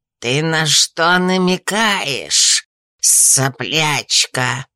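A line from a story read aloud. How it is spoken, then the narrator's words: Furious, through gritted teeth. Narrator (Russian): разъяренно процедил он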